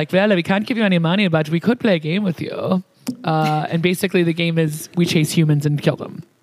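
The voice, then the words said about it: German-accented impression of another person. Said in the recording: “I am still so aroused by your accent... My Christoph oh my God. pretty good... yours was actually German, and that was neat”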